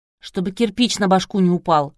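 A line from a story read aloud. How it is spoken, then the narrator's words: Snorting grunt. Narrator (Russian): хмыкнул Жека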